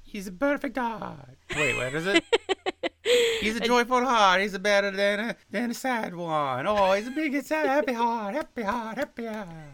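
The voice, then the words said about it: Put-on comic character accent. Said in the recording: “Can you do that in the Pippi Bueno accent?”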